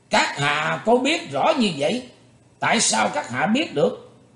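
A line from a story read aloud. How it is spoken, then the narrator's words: Startled exclamation. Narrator (Vietnamese): hắn giật mình kêu lên một tiếng nói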